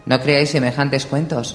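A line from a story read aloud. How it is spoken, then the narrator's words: Brusque retort. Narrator (Spanish): replicó Catelyn en tono brusco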